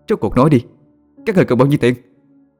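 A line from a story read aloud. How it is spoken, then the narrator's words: Defiant loud shouting. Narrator (Vietnamese): Hoàng Mai hét lên, nhất quyết không nhận lỗi về mình, còn lớn tiếng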